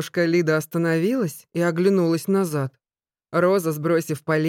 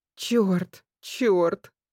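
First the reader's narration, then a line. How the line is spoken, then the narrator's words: Moaning. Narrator (Russian): стонала Роза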